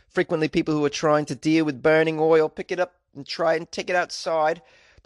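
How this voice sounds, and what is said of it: Awful put-on Australian accent. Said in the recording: “Is this the worst Australian accent you've ever heard in your life? Yes, it is. ... my awful Australian accent.”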